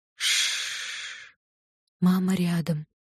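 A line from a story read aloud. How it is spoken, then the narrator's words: Whispering. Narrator (Russian): зашептала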